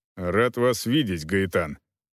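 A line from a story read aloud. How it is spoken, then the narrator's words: Dry greeting. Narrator (Russian): сухо приветствовал его Волков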